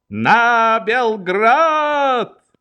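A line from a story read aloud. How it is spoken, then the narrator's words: Shouted. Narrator (Russian): на малой стране перед памятником Радецкому Швейк крикнул провожавшей его толпе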